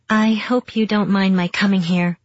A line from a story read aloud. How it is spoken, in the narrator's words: she said